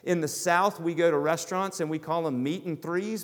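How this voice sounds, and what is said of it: American Southern accent. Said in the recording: “I grew up in the South. I would love to disguise it sometimes, but you guys know from my accent, I can't disguise it at all.”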